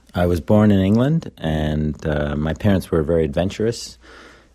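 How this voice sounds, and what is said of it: Slight English accent. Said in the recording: “Do you have a bit of an English accent still?”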